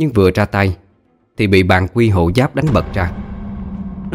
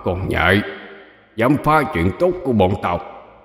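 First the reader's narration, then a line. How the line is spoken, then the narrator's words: Skeleton muttering. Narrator (Vietnamese): Bộ xương lầm bầm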